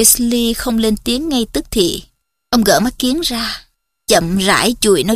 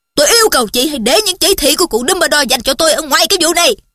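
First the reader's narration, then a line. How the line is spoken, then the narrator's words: Loud interrupting. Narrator (Vietnamese): Chú Sirius lớn tiếng ngắt lời bà Weasley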